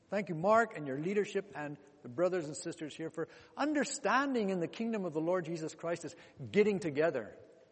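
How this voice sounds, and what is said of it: Foreign-accented English. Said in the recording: “give you a chance to hear my accent ... Don't even try to ask, where's this fella come from? I was born in Congo, DRC.”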